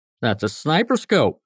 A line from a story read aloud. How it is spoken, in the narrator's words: Scotty exclaimed